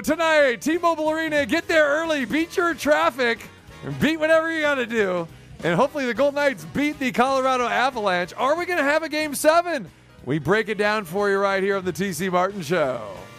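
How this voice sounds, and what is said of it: Game show host voice. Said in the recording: “I went with a kind of a game show voice there”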